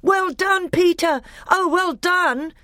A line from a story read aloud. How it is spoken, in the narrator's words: shouted Edmund